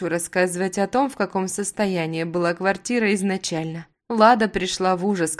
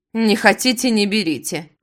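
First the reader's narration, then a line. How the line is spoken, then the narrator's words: Woman snorting dismissively. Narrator (Russian): фыркнула женщина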